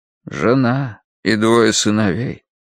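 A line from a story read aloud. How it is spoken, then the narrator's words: Tired voice. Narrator (Russian): устало проговорил Рош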